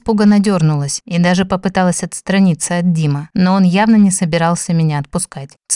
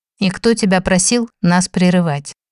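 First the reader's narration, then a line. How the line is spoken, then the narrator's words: Cold clarifying question. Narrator (Russian): Холодно уточнил Димарий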